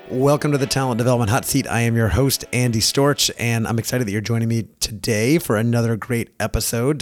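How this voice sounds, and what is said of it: Hoarse, slightly congested voice. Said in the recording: “I've got a bit of a frog in my throat. ... I've had a little bit of a cold this week, been more tired than normal”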